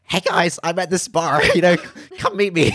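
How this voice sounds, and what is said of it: Impression of Gary Vee. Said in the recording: “Gary Vee ... that's a great impression.”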